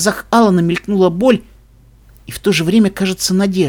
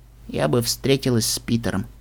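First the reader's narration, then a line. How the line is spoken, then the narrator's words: Quiet, tearful. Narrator (Russian): тихо проговорила Трикси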